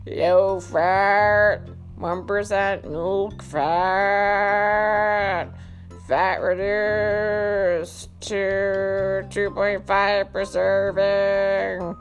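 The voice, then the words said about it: Cow-like character voice. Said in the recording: “Let's try a cow like voice.”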